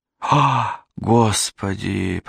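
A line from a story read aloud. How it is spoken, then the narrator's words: Moaning. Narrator (Russian): простонала она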